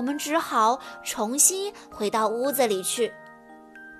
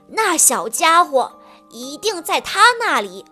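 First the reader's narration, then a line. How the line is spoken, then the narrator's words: Loud shout. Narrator (Chinese): 小便胡子爷大叫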